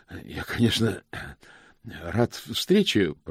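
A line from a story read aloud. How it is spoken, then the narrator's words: Hoarse wheeze. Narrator (Russian): прохрипел он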